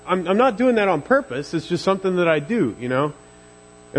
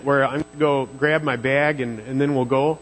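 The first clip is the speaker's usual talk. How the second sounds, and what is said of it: Put-on Minnesota accent. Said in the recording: “she spent a lot of time in Minnesota, so I kind of get that accent”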